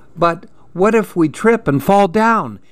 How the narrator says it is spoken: Andy asked nervously

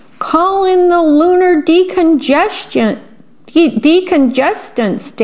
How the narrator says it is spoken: Daddy Alien cried

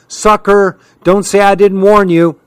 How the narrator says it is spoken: she hollered

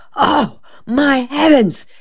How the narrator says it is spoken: Della Street exclaimed, suddenly remembering

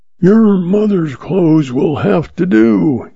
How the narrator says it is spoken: he roared

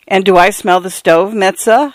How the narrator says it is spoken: laughing

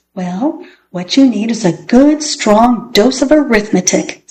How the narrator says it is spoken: said Mrs

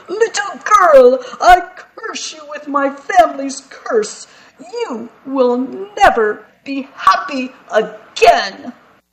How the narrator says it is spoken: The Archduke shouted

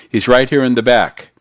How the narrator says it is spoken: the man on the sidewalk yelled

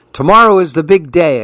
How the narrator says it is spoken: exclaimed Leander

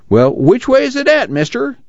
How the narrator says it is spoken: Tom whined

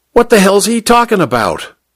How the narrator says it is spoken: Popeye wanted to know, his accent harshly American

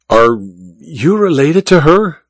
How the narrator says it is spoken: Olga sighed dramatically

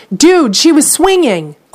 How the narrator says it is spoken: a woman watching nearby excitedly tells her friend

